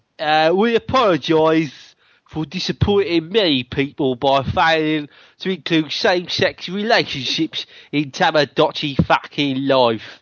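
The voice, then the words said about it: Put-on Cockney accent. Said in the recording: “What about Cockney? They're a Cockney.”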